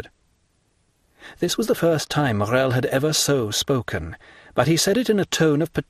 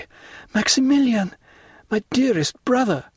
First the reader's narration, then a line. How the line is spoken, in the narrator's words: cried